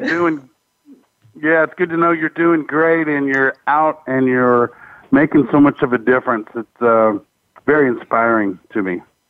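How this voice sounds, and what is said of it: Country twang accent. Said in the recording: “I think I heard a country, a twang”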